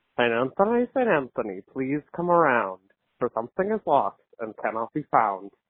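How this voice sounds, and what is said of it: Imitates another person's voice. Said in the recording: “my impression of the Pope praying”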